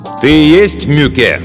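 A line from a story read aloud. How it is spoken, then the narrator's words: Loud question. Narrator (Russian): громко спросил Мартин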